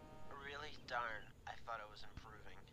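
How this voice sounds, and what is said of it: Feigned sick, weak voice. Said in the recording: “You sound terrible.”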